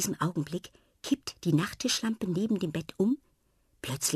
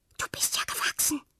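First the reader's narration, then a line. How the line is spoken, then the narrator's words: Whisper. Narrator (German): flüstert sie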